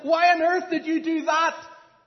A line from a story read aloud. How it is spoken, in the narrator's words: frightened woman yelled and said